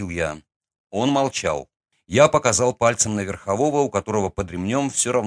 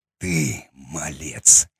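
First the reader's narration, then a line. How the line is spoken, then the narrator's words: Hoarse rasp. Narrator (Russian): прохрипел он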